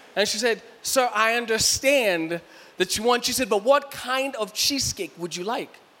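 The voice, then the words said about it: Kenyan accent. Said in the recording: “my Kenyan accent”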